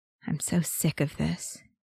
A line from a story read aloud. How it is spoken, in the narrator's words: Bucky muttered